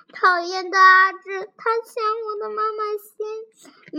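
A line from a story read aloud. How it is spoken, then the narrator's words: Crying while walking. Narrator (Chinese): 小苹果一边哭着，小苹果一边走一边哭着说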